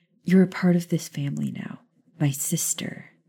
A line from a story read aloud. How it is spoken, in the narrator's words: Maya said the word softly